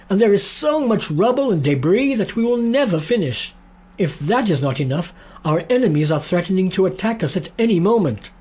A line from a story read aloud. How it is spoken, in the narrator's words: they cried